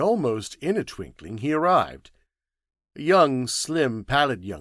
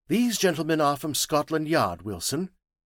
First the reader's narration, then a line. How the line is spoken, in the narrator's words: he said sharply